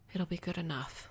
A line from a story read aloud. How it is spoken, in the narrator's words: I said softly